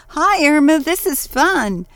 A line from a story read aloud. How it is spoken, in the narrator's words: Ruth yelled